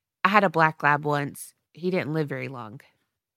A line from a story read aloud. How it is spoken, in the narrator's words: Loner speaks so softly